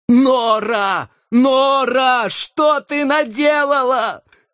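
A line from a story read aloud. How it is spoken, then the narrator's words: Frantic shouting. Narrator (Russian): кричал я, обезумев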